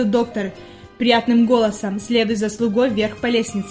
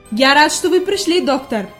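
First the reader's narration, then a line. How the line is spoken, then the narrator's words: Glad exclamation. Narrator (Russian): воскликнул господин Сесман, увидев друга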